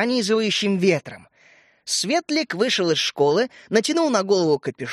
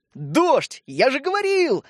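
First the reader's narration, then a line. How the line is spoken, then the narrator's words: Joyful yelling. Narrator (Russian): радостно завопил Родька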